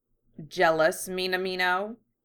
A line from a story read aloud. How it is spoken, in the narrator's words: sneered